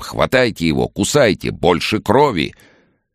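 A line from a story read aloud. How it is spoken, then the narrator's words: Loud command. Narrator (Russian): режиссер и громко прикажет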